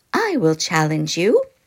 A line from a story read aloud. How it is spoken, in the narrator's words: a shrill little voice piped up